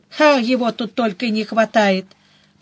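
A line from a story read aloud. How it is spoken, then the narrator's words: Grumbled. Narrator (Russian): проворчала я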